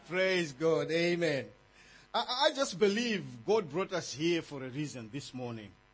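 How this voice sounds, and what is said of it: Speaks English with a non-native accent. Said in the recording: “I sincerely hope you are going to understand my accent.”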